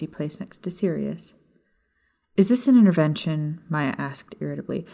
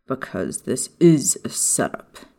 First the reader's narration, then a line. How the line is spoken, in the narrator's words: Sirius growled